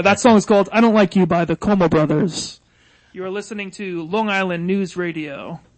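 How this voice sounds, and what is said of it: Radio announcer voice. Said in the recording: “I'm testing out my radio voice. ... Oh, good. Yeah, you got a good one.”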